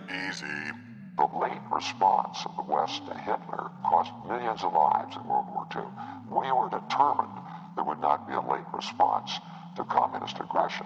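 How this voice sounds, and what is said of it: Robert McNamara impression. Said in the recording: “Secretary of Defense Robert McNamara. ... Vietnam era? ... That was pretty fucking good.”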